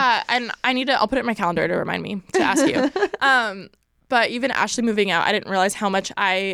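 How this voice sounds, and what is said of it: Usual voice. Nothing is said of it.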